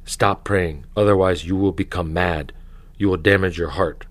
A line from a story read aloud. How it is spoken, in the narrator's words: The devil whispers